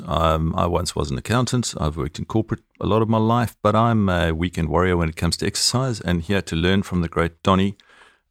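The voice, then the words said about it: South African accent. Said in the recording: “abusing me about my accent ... I don't say protein. ... I love the South African accent”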